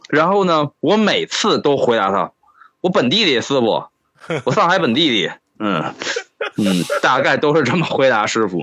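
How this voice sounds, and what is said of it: Obvious Beijing accent. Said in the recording (Chinese): “这么明显的北京口音 ... 你现在这个口音叫北京口音”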